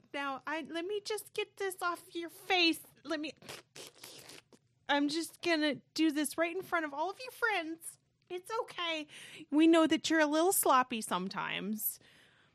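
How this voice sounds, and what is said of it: Exaggerated generic embarrassing mom voice. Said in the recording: “A terrible impersonation of my mom... I'm impersonating like the generic mom... Embarrassing mom... like the mom from Bobby's World”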